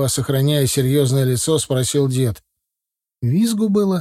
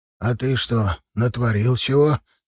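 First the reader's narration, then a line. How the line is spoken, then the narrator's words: Quiet question. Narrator (Russian): тихо спросил Андрей Егорович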